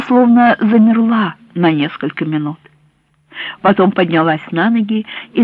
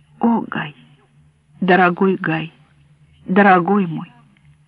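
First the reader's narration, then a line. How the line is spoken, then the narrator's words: Muffled whisper. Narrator (Russian): прижавшись к нему лицом, прошептала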